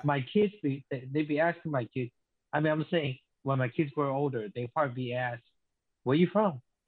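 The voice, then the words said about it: Speaks with a foreign accent. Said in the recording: “of course, I have an accent”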